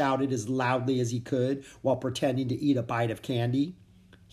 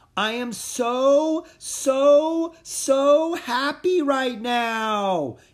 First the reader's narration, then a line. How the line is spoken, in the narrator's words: he shouted again